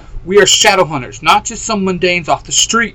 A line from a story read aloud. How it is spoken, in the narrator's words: Mikhail barks